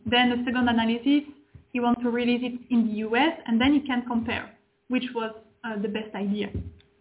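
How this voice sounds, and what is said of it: Speaks English with an accent. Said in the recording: “Sorry for my accent”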